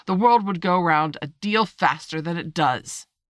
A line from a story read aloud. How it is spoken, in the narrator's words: said the Duchess in a hoarse growl